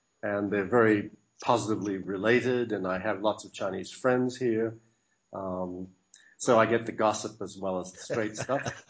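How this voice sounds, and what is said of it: Australian accent. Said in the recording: “It sounds like you, from your accent, that you're from the Antipodes. Are you from Australia or New Zealand? ... Yes, I was born in Australia.”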